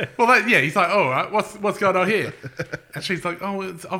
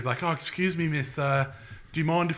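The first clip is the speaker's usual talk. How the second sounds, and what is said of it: Put-on British accent. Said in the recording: “Is he British? ... it started out as being like a different accent.”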